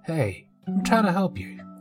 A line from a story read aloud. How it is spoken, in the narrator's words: he shouted back